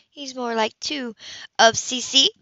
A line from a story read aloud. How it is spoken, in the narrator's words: Peppy laughed